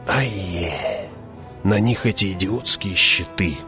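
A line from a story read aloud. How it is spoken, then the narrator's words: Hissing close to ear. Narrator (Russian): прошипел Фриман над ухом Хавата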